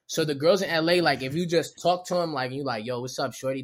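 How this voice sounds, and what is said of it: Baltimore accent. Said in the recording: “They love them a Baltimore accent.”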